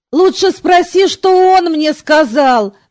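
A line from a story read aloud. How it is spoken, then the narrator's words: Moaning. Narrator (Russian): простонал Артуро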